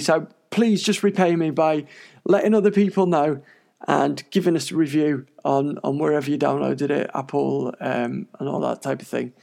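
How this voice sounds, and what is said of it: Tired, failing voice. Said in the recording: “I am very, very, very tired and my voice is going.”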